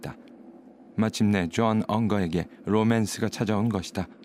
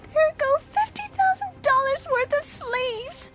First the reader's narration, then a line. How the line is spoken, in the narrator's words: cried